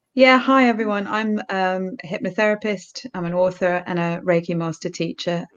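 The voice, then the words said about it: British accent. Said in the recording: “I love your accent. ... As you can tell by my accent, I'm British.”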